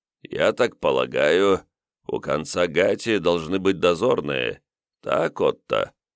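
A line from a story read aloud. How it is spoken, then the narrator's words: Muffled, husky voice. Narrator (Russian): Приглушенный с хрипотцой голос Комтура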